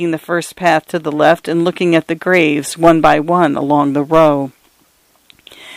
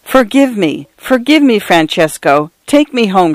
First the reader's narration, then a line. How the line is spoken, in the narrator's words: cried